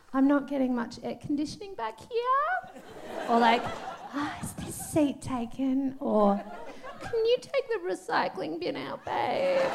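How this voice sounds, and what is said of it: Put-on girly voice. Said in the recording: “I use my girl voice to get what I want.”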